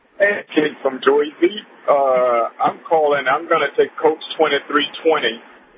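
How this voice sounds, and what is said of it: Convincing New Jersey accent. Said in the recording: “You should call in with a Jersey accent. You got it down good.”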